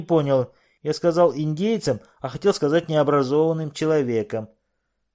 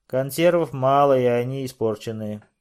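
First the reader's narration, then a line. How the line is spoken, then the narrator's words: Gloomy. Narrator (Russian): мрачно сказал Генри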